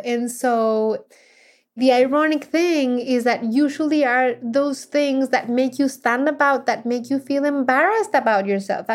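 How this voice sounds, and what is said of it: Heavy foreign accent. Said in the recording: “I knew I had a very heavy accent. ... people recognize me because of my accent and because of the sound of my voice”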